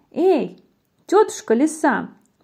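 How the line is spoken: Mouse shouting. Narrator (Russian): мышонок закричал

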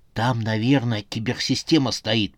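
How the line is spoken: Whispered. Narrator (Russian): прошептал граф

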